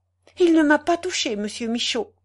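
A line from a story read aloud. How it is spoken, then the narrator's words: Exclaiming. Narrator (French): s'écria-t-elle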